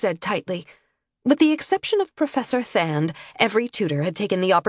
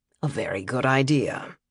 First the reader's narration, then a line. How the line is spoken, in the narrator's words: agreed dryly